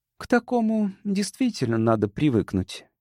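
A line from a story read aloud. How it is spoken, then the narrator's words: Quiet speech. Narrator (Russian): тихо сказала Сьюзан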